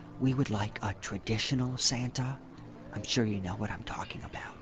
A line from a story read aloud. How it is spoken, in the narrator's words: a woman approached me and whispered